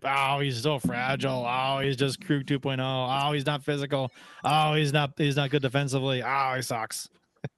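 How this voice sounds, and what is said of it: Imitates another person's voice. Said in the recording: “is that how they sound? ... a Rich Hall impersonation of of Rich Hall doing blues uh, fans in general.”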